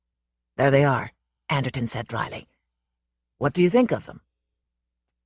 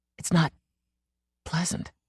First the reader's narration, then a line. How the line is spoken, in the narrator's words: he murmured